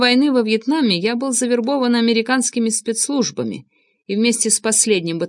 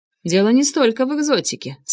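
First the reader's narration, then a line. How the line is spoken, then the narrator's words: Calm explanation. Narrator (Russian): спокойно объяснил Нгуэн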